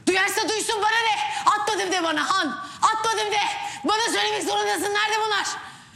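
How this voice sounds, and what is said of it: Shouting. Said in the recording (Turkish): “bağırma”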